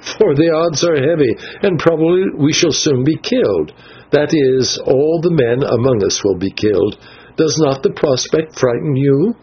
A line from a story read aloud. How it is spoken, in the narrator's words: he answered with a little laugh